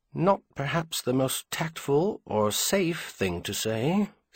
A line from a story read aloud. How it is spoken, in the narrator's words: Samuel replied even more quietly